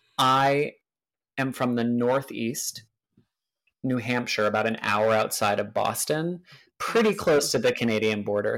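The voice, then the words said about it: American accent. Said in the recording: “You've got quite a sexy little accent. Where in America is that from?”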